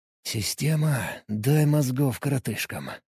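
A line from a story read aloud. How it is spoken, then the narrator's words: Whispering. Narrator (Russian): шептал я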